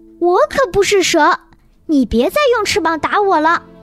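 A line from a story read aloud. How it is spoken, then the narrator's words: Furious. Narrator (Chinese): 爱丽丝怒气冲冲地说道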